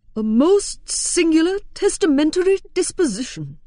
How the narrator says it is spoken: exclaimed Mr

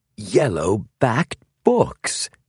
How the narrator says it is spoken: he exclaimed

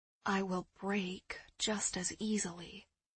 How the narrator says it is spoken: I muttered

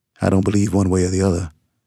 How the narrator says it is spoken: I replied evenly

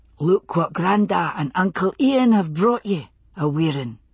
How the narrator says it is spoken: he said softly

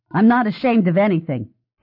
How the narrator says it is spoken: the reporter snapped

